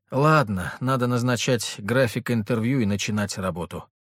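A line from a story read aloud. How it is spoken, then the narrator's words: Sighing. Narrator (Russian): вздохнула Ангелина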